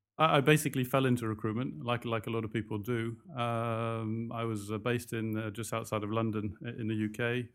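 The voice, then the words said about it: London English accent. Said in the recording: “we can hear the accent, of course. ... You're from London, yeah.”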